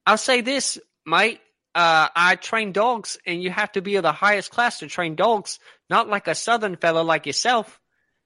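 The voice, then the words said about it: Accent wandering from British to Australian. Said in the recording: “you kind of got that wandering accent. It started off British, now you're Australian.”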